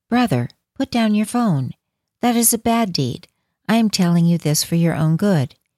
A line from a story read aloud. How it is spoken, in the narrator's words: I calmly said